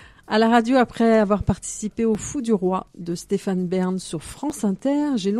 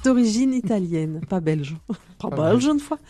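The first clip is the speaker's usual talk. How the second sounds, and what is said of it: Put-on Belgian French accent. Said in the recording (French): “Merci pour cet accent. ... il parle pas comme ça en plus.”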